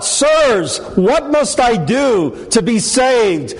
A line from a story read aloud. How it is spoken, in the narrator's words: the Philippian jailer embraced when he cried out